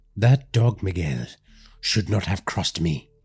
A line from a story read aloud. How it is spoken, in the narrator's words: muttered